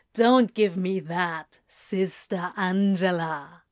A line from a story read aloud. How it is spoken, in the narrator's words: Crowley drawls